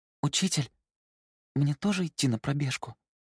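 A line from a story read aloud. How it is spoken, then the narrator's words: Quiet question. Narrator (Russian): тихо спросила Мэй-Мэй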